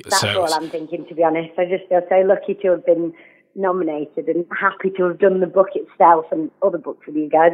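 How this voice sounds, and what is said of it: Yorkshire English accent. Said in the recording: “She's stronger an accent as me ... Representing Yorkshire”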